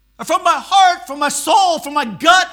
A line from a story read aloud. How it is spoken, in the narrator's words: I cried